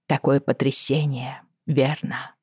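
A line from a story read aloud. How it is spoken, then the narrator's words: Very sympathetic tone. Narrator (Russian): промолвила я самым сочувственным тоном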